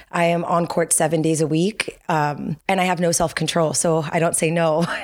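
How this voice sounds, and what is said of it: Hoarse voice. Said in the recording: “you can hear that my voice sounds hoarse.”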